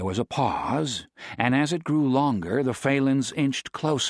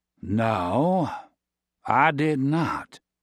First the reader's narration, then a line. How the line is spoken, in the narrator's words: Josh said slowly